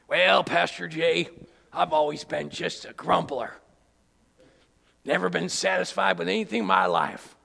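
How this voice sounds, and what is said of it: Rustic farmer-like character voice. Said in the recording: “why you sound like a farmer”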